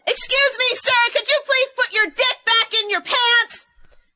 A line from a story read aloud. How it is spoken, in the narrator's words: yelled really loud